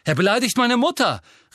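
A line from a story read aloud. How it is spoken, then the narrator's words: Called out. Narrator (German): rief Seamus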